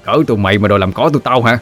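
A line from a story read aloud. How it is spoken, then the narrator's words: Barked. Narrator (Vietnamese): Nó quát lên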